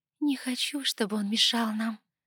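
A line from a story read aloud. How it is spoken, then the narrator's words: Tender mutter. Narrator (Russian): Ласково пробормотала она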